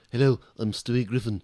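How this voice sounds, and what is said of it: Cartoon character Stewie Griffin voice. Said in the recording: “my impression of Stewie Griffin”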